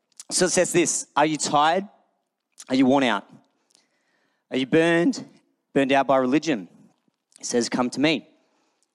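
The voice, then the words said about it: Rough, worn-out voice. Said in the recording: “sorry about my voice, by the way, Finn's first birthday party yesterday, so probably went a little too hard”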